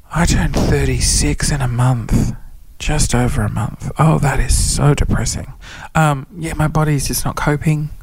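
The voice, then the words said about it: Whispering. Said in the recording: “I'm whispering and sitting in the dark”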